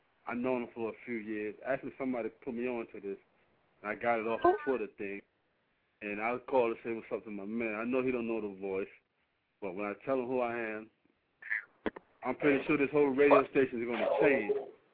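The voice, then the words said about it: Heavy New York accent. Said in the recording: “You got your New York accent going on ... You got your New York accent on real heavy.”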